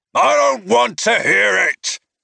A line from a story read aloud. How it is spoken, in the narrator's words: he growled